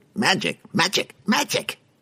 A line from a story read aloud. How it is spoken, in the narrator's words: His little goblin assistant jumped up and down at his side, squealing